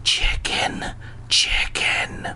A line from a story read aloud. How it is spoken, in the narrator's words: he rasped